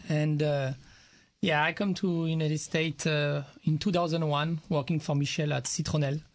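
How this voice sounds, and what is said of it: French accent. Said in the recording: “I noticed from your accent you might be not from Texas ... Oh, you're French.”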